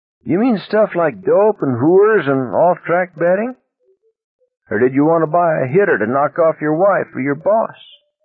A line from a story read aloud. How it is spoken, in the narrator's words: Magliore laughed harshly